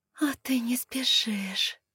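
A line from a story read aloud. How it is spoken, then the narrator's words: Groaning exhale. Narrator (Russian): со стоном выдохнула я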